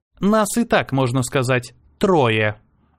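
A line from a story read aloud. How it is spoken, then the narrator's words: Sarcastic. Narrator (Russian): язвительно добавила Ева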